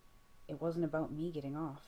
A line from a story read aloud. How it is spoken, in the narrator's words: Dean whispers back, half dizzy